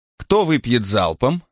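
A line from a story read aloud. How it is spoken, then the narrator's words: Sudden laughing. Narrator (Russian): вдруг рассмеялась Нета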